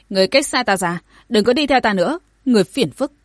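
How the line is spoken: Cold, angry woman. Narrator (Vietnamese): Ngô Kỳ, sắc mặt nàng lạnh nhạt tức giận nói

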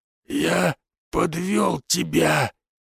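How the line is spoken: Hoarse cry. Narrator (Russian): прохрипел хозяин дома

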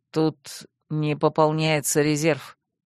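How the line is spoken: Quiet warning. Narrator (Russian): тихо предупредил Рент

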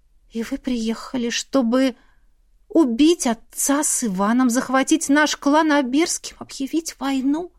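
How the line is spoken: Trembling voice. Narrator (Russian): Дрогнувшим голосом спросила

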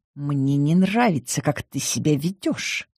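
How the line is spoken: Through gritted teeth. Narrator (Russian): Сквозь зубы процедил Павлов

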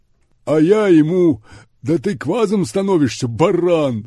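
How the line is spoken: Guffawing. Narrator (Russian): захохотал Гип

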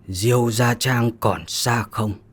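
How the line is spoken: Slow, halting, hoarse. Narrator (Vietnamese): Người áo xám đó một chữ dừng lại một chút, giọng khàn khàn mà nói

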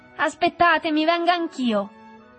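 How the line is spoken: Shouting from the shore. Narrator (Italian): gridò il negro dalla riva

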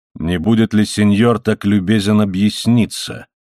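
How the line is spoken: Low, peculiar voice. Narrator (Russian): Зорро говорил низким голосом, звучавшим как-то особенно

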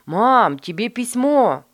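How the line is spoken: Shouted. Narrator (Russian): крикнул Майкл

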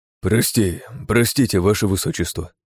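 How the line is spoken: Sigh. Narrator (Russian): вздохнул он

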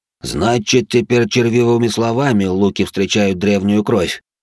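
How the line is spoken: Poisoned, mocking rasp. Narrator (Russian): туман был скован и отравлен змеем, он нашел смелость издевательски улыбнуться и прохрипеть

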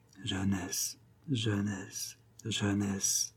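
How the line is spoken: Murmur. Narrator (French): murmura

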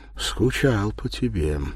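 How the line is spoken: Deep, trilling, trembling voice. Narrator (Russian): говорит Анна грудным, с лебедиными переливами, трепещущим голосом

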